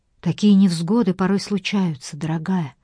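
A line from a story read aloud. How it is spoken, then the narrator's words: Gentle, affectionate. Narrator (Russian): ласково сказала Джейн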